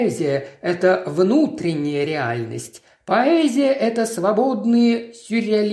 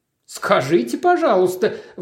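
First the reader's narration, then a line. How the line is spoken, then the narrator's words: Exclaimed. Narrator (Russian): воскликнул Мейзлик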